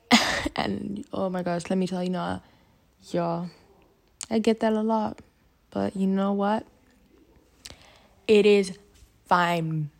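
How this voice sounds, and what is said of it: American-sounding accent. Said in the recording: “I do not sound Ugandan because I have an accent... you sound like you come from pretty much America”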